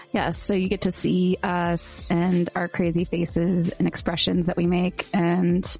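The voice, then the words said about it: Hoarse, strained voice. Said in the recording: “I'm losing my voice for some reason from laughing too much.”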